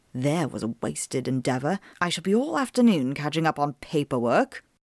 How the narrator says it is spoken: Enstrid mutter under her breath

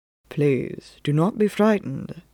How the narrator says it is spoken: Phelps said softly

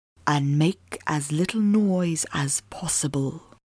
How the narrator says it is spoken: Phelps whispered in my ear

